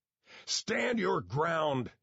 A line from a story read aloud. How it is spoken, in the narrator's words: he bellowed